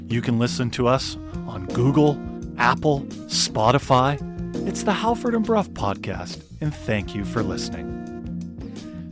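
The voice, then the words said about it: Exaggerated podcast announcer voice. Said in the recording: “I'm using my podcast voice.”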